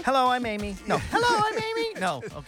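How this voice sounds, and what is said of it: Impression of a female co-host. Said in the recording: “Amy didn't like my impression.”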